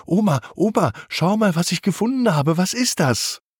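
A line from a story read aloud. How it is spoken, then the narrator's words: Very excited child. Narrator (German): Carlo ist ganz aufgeregt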